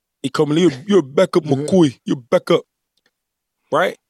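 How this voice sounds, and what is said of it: Imitates another person's accent. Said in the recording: “he got that little accent”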